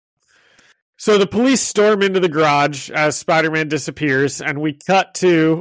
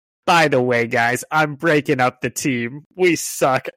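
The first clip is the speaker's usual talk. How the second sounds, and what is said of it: Cartoon character voice, getting worse. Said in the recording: “my Fancy Dan is getting worse by the impersonation”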